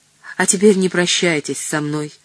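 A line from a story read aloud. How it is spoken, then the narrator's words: Pointedly calm. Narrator (Russian): сказал он подчеркнуто спокойным тоном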